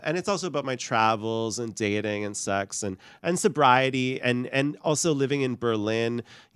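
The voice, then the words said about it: Canadian accent. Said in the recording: “You still can't get rid of the Canadian accent.”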